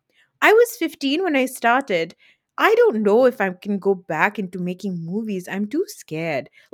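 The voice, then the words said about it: Imitates another person's voice. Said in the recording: “That's a good Neelam accent”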